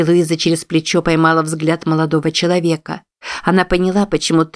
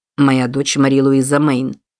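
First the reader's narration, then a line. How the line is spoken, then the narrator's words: Icy tone. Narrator (Russian): ледяным тоном произнес Купер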